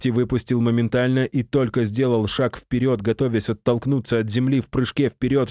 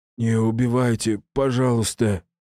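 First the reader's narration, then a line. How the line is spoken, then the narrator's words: Hoarse, muffled voice. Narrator (Russian): Хриплый и одновременно какой-то глухой звук вырвался из его горла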